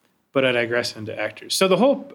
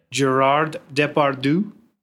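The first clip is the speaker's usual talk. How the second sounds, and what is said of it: French accent. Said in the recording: “that's the French accent”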